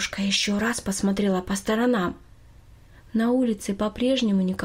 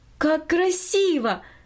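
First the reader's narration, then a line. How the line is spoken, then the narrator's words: Exclaiming. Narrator (Russian): воскликнула Минори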